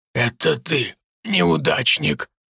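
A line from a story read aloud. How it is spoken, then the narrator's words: Hoarse rasp. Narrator (Russian): прохрипел Артем Алексеевич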